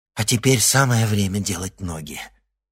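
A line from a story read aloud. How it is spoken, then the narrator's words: Breathless exhale. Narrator (Russian): выдохнула девушка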